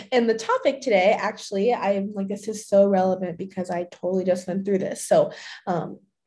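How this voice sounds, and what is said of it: Raspy, slightly hoarse voice. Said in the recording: “my voice sounds a little raspy”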